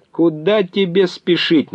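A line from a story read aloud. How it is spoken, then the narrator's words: Mocking shout. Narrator (Russian): насмешливо крикнул он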